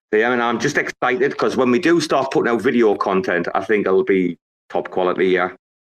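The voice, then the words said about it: British, Irish or Australian-sounding accent. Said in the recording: “hearing you speak makes me regret or lament that I am not from either Britain, Ireland, or Australia ... the accent's value. The accent gives me another 10%”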